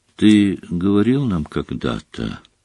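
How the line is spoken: Quiet. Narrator (Russian): тихо промолвила Гермион

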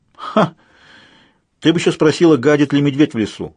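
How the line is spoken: Snort. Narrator (Russian): фыркнула Сьюзен

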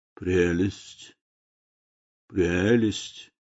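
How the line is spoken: Muttering. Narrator (Russian): лорд Генри все смотрел в бинокль и бормотал

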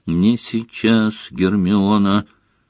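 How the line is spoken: Grim, meaningful tone. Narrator (Russian): мрачным и многозначительным тоном произнес Гарри

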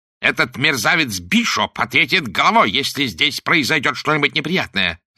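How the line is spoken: Growling. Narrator (Russian): зарычал Уиллокби

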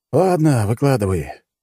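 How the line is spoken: Resigned apprehensive sigh. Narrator (Russian): вздохнул я, ожидая, что она сообщит об очередном нападении

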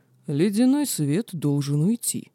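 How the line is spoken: Calm. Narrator (Russian): спокойно произнес орк

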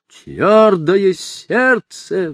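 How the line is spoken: Furious roar. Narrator (Russian): взревел сиу и в ярости

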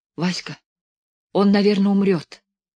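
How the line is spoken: Anxious whisper. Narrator (Russian): тревожным шепотом

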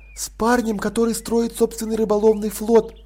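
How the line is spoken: Whisper. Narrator (Russian): шепнула Сибилла

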